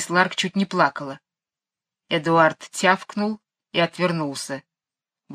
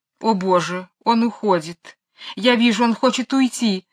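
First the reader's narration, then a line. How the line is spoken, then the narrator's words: Sobbing. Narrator (Russian): рыдала мисс Ларк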